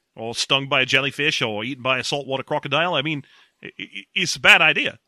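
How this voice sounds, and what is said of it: Put-on accent, slipping. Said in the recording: “my accent's slipping away from me”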